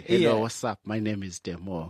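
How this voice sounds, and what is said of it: Attempted twang, Zulu accent still audible. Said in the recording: “let's try and twang ... You can't get rid of the Zulu accent.”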